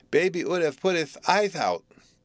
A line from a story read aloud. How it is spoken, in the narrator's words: lisped the little girl